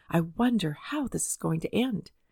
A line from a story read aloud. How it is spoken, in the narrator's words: held their breath and whispered to themselves